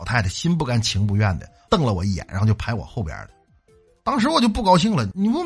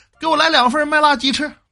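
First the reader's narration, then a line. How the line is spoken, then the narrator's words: Middle-aged woman shouting rudely. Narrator (Chinese): 一个大妈插过来就跟服务员喊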